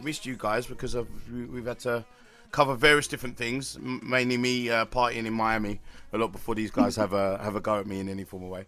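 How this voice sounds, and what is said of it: Croaky voice. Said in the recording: “Your voice sounds so croaky”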